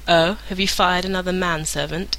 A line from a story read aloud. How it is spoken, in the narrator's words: Uther asked